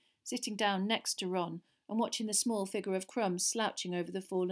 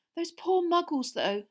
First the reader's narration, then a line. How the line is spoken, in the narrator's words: said Hermione nervously